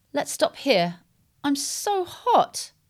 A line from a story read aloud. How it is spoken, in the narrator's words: moaned Laura